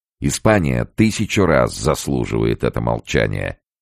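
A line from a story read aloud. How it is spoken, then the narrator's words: Sharp, irritated interruption. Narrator (Russian): резко и раздраженно прервал ее Боярд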